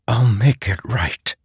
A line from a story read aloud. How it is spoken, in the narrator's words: Renarin whispered